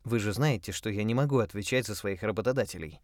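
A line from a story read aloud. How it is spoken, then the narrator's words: Plain. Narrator (Russian): ответила Сазерленд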